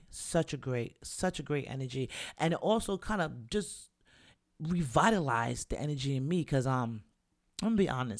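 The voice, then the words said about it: Slightly raspy voice. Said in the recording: “My voice is a little raspy because I, too, was singing with Barrington Levy at the top of my lungs last night.”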